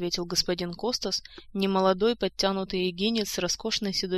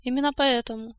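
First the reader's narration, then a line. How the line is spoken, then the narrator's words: Calm explanation. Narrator (Russian): спокойно пояснил король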